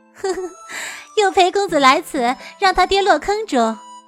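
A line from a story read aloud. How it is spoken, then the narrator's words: Laughing. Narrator (Chinese): 白姬也笑了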